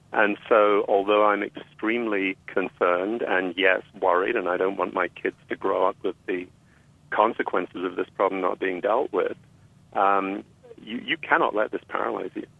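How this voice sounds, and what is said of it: British accent. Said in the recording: “I was expecting you in the British countryside or something somewhere. ... Kept the accent”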